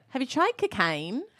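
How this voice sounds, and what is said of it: Put-on Australian accent. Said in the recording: “let me do my Australian accent ... one phrase in Australian ... That is good, though ... An Australian accent is hard”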